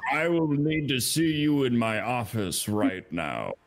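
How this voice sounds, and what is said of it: Very booming loud voice. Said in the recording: “in a very booming voice, so it goes out the door.”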